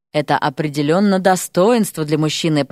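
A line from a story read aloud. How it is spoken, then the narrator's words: Deep-voiced woman. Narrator (Russian): пробасила гостья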